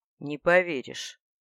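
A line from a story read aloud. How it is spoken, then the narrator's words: Sudden snort. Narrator (Russian): неожиданно хмыкнул ректор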